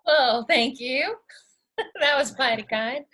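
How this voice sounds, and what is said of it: Put-on Southern accent. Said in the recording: “southern again ... The Cockney Southern”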